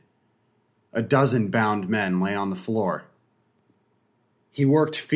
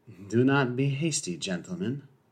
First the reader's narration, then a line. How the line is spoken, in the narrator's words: he said softly